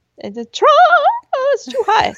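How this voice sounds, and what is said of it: High-pitched girly scream. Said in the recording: “you would just hear me screaming in my little girly voice”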